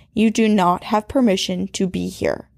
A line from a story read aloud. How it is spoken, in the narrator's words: she firmly said